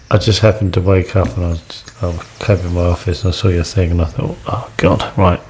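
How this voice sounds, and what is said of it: Whispering quietly. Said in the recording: “I'm whispering because... Oh, you're whispering because it's early in the morning ... I better keep it down.”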